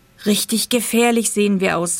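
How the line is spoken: Plain. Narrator (German): sagte Schnüffelbart

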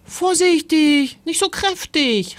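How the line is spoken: Called out. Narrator (German): rief Timon

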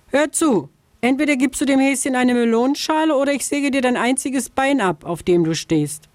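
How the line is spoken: Calling from afar. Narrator (German): Schon von Weitem rief sie der Vogelscheuche zu

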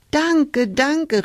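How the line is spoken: Joyful call. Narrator (German): rief Hulda

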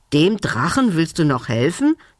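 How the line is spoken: Hissed by goblin. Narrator (German): zischte der Kobold

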